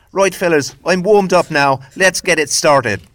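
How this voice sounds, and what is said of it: Attempted Northern Irish accent. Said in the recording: “that was my attempt at a Northern or an Irish accent”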